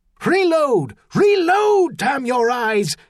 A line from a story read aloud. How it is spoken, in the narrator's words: Sinclair shouting out of the smoke from somewhere forward